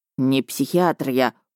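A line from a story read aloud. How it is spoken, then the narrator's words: Grumbling. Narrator (Russian): буркнул Миха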